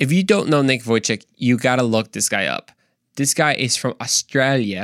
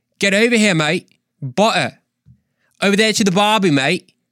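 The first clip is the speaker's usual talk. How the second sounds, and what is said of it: Attempted Australian accent, not very good. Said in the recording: “I've been working my Australian accent ... it's honestly not very good ... this probably sounds so pathetic”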